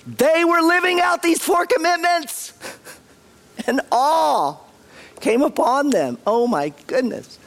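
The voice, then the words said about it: Strained, worn-out voice. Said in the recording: “I'm sorry for my voice, y'all. ... I can't speak anymore.”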